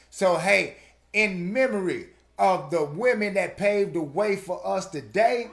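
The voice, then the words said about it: Southern drawl. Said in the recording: “I'm country, so I got that southern drawl. My enunciation is not always correct”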